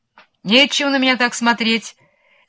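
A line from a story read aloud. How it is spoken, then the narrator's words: Shouting. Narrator (Russian): кричала волкам кума-тыквочка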